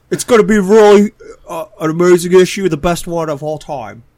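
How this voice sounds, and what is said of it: Bad Donald Trump impression. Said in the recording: “Are you trying to do Trump? I thought you were trying to do, like, Napoleon Dynamite. ... This is just the worst Trump impression of all time.”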